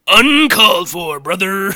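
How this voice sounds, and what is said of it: Hulk Hogan impression. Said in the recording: “a Hulk Hogan voice”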